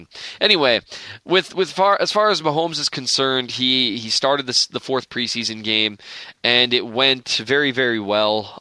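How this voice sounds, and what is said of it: Minnesotan accent. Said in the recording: “You can't take the accent out of a Minnesotan.”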